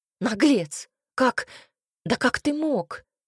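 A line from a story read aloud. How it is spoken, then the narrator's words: Bitter exclamation. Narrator (Russian): воскликнула она горько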